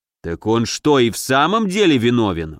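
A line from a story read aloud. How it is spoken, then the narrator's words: Exclamation. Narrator (Russian): воскликнул Елецкий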